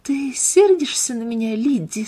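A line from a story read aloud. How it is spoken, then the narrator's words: Quiet question. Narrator (Russian): спросила Марианна тихо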